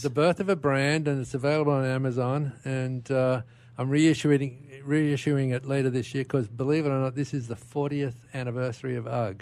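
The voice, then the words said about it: Foreign accent. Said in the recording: “Never lost the accent.”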